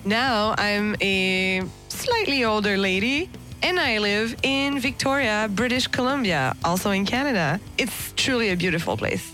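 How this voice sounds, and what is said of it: Subtle French-Canadian accent. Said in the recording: “I have a bit of an accent. It's very subtle, but I have an accent. ... I'm French-Canadian”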